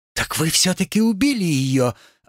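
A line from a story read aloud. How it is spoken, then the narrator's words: Joyful girl exclaiming. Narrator (Russian): радостно воскликнула девушка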